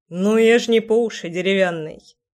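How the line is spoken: Amused snort. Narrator (Russian): хмыкнул Кир

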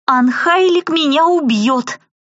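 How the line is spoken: Howled. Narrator (Russian): взвыла я

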